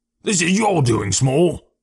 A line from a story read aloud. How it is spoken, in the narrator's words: said Athenley Jones angrily